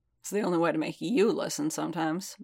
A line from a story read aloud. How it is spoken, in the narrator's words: Boba muttered